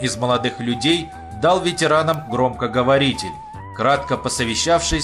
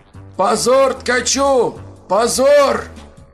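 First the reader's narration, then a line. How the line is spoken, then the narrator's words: Shouting. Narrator (Russian): кричал Иван Петрович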